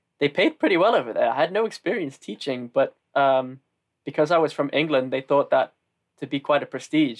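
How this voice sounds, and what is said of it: Northern English accent. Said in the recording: “I'm from the north and that my accent isn't exactly the ... most ... classic”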